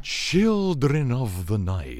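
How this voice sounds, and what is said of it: Dracula impression, Eastern European accent. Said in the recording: “Dracula's always this smooth dude from this Eastern European country that has this cool accent. Listen to them.”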